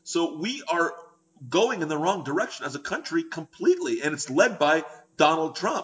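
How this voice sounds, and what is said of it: Passionate yelling. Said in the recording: “if I sound like I'm yelling because I'm passionate. I am yelling.”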